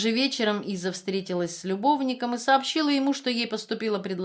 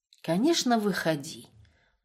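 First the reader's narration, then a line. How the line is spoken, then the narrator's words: Tired. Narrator (Russian): устало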